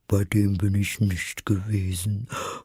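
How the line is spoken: Said with a sigh. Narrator (German): sagte die falsche Schildkröte mit einem Seufzer

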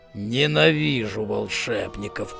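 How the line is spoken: Growl. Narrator (Russian): прорычал Кобл

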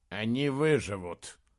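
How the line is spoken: Grim declaration. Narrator (Russian): мрачно заявил Бенабик

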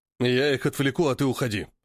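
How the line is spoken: Growled. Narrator (Russian): прорычал Шмель

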